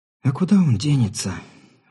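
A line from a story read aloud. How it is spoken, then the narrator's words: Woman's sigh. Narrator (Russian): вздохнула женщина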